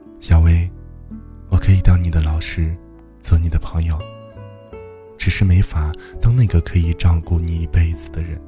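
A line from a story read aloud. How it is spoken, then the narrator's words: Sighing. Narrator (Chinese): 周良叹口气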